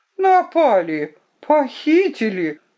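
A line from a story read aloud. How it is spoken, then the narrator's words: Exclaiming in feigned surprise. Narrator (Russian): воскликнул он с притворным удивлением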